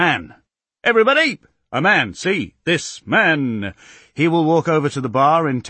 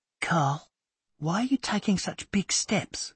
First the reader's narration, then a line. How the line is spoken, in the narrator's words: Millie whispers